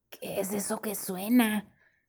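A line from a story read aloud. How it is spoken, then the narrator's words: Murmured. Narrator (Spanish): murmuró Tomás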